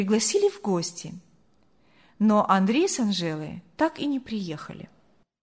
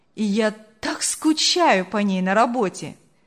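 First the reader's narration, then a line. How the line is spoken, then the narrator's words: Laughing speech. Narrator (Russian): Смеясь, говорил он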